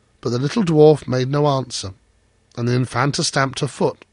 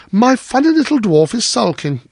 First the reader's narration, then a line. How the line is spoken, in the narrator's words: she cried